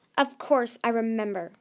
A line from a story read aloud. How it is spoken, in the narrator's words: Grandeur snapped